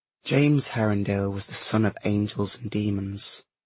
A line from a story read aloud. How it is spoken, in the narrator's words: she said softly